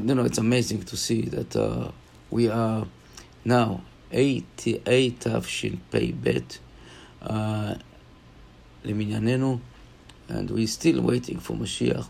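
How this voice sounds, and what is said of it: Hoarse, partly lost voice. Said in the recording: “I lost my voice a little bit”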